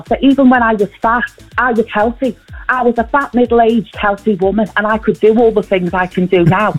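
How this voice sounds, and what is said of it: Close impression of Tina Malone. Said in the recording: “is that an impression or is that AI? Because that sounds so close... an impression of someone doing an impression of Vanessa Feltz, Tina Malone”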